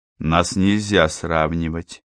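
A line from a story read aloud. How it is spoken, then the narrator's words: Quiet objection. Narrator (Russian): тихо возразил я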